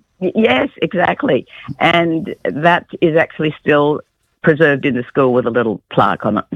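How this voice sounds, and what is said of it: Congested voice from a cold. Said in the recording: “I've got a cold.”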